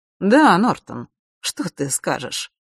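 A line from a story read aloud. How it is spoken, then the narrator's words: Snide question. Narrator (Russian): ехидно спросила черная королева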